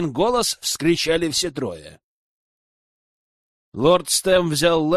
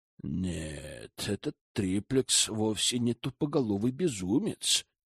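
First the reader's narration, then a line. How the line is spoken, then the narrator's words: Grumbled. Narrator (Russian): пробурчал он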